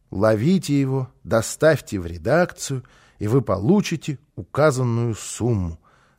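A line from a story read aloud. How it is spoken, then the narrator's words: Finishing reading, sighing. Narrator (Russian): закончил он чтение и вздохнул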